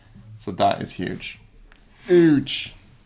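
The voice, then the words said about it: Imitates another person's voice. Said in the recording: “a bad Trump impression. ... I don't think he sounds that way at all.”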